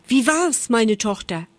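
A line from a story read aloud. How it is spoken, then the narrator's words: Mother calling out. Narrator (German): Als die Mutter ihre Tochter erblickte, rief sie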